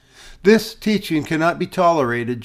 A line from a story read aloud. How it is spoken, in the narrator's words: she replied